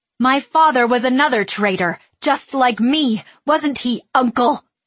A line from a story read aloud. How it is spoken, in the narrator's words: she yelled